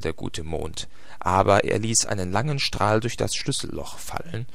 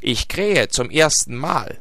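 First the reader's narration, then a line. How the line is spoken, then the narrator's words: Calling down from above. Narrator (German): rief der goldene Hahn herunter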